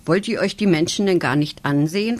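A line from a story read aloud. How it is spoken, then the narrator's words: Plain question. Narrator (German): fragt sie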